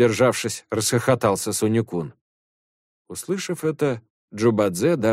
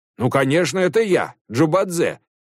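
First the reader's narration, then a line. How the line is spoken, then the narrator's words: Shout. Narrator (Russian): закричал он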